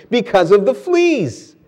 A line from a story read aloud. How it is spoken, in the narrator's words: Betsy could not keep the triumph from her voice as she exclaimed